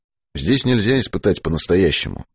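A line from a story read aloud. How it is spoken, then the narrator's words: Muttering. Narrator (Russian): пробормотал Быков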